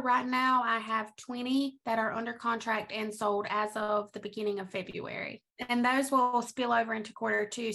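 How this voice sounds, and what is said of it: North Carolina Lumbee accent. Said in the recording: “your accent, where are you from? ... I am from North Carolina ... a lot of people there sound just like I do.”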